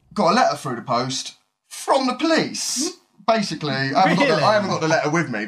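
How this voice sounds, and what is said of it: British accent. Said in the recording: “they're from Britain, so their language might be a little hard for the American ear to catch hold of ... they've got the British accent”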